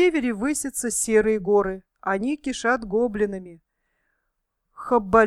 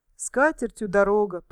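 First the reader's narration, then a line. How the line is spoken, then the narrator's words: Dwarf grumbling. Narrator (Russian): проворчал кто-то из гномов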